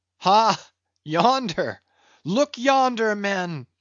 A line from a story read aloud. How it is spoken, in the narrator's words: cried a foreboding voice in her wake